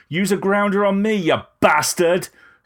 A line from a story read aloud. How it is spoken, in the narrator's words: screamed Rose, spiralling through the air